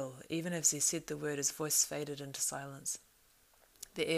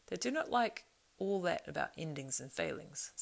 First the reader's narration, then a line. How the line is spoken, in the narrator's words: said Mary